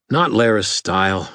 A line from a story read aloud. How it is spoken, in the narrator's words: I panted